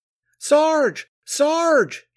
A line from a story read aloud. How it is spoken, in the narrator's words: he screamed